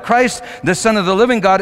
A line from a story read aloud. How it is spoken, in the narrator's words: He just blurted out